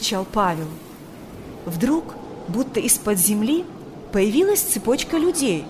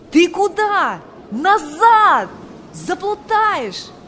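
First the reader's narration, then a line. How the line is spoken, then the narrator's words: Shouting. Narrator (Russian): кричал он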